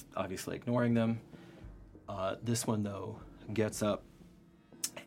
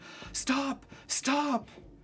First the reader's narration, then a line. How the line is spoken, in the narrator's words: are screaming at him